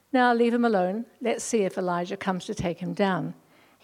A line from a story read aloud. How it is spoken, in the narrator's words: said